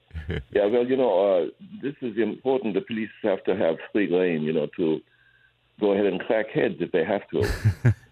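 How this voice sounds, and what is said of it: Put-on German accent. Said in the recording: “I was a German. I affected a German accent.”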